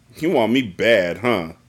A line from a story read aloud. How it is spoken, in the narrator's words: Bruce asked her sarcastically